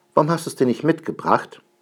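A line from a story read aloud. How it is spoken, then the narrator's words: Calling out. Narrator (German): ruft Schnipperle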